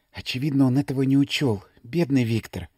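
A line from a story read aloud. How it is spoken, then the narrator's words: Whisper. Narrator (Russian): прошептала Мария Александровна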